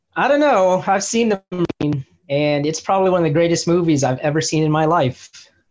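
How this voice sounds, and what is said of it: Sarcastic delivery. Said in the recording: “That was sarcasm.”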